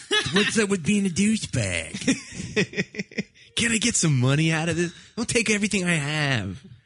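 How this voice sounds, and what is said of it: A pretty good Rory impression. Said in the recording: “I like your Rory impression. ... It's pretty good, actually.”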